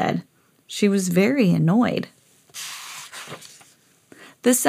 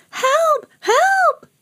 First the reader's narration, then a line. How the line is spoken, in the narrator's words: shrieked